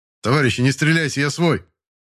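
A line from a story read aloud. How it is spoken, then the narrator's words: Shout from cover. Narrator (Russian): выкрикнул из-за укрытия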